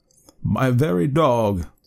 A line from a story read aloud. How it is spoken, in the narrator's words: sighed poor Rip